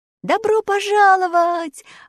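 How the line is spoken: Joyful group shout. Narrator (Russian): радостно крикнули путники

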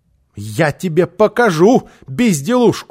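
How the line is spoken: Woman shouting. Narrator (Russian): закричала она

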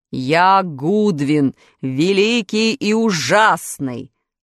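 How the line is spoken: Beast's roar from room corner. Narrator (Russian): проревел зверь голосом, выходившим не из пасти чудовища, а из дальнего угла комнаты

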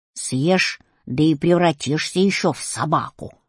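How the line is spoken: Grumbling. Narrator (Russian): ворчал Кузя

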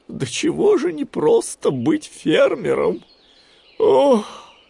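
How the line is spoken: Sigh. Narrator (Russian): вздохнул Гуфи

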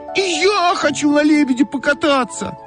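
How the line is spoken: Shout. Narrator (Russian): закричала Ойка

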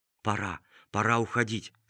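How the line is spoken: Quiet but clear. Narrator (Russian): сказал он медведям негромко, но внятно

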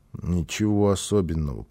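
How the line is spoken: Child mumbling. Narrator (Russian): пробормотал малыш

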